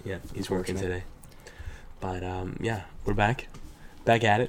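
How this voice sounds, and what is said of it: Sick, rough voice. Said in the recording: “My voice is all fucked up ... All the boys are sick”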